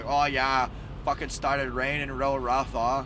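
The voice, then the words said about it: Deliberately poor put-on Boston accent. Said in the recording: “I know I'm doing a terrible Boston accent right now”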